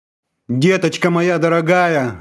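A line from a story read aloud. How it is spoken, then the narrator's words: Mother screaming. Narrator (Russian): вопила мать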